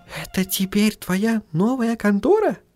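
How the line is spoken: Whispered question. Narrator (Russian): шепотом спросила Сахариса

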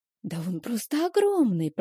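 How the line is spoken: Whisper. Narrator (Russian): прошептала Стейси

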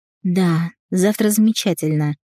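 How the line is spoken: Relieved sigh. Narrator (Russian): с облегчением вздохнула Рената

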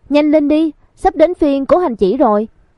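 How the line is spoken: Girl calling out. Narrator (Vietnamese): Một nữ sinh kêu lên

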